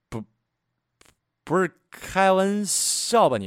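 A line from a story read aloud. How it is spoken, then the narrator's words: Frightened stammer. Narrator (Chinese): 我被这个数字吓到了，结结巴巴的说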